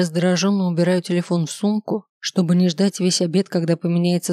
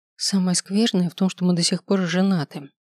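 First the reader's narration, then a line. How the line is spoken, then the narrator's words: Quiet. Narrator (Russian): тихо говорю я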